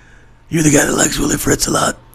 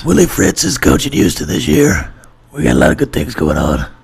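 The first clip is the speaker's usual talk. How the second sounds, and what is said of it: Willie Fritz impression, Ed Orgeron-like. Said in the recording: “That's more Ed Orgeron trying to do a Willie Fritz impression. ... No, Ed Orgeron's deeper.”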